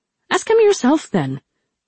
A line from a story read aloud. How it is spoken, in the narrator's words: Rin said irritably